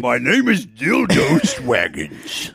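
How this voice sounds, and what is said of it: Fantasy character voice, Lord of the Rings-like. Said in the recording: “are you doing a voice that's like Lord of the Rings”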